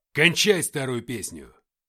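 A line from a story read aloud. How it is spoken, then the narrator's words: Barked. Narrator (Russian): рявкнул Игнат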